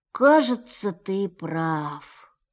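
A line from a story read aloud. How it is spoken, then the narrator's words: Deep, sad sighing. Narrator (Russian): сказал, глубоко и печально вздыхая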